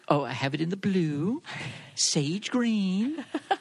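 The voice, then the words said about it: Impression of QVC host David. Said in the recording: “your impression of him like saying what color everything is”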